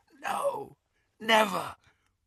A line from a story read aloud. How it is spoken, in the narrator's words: whispered Malfoy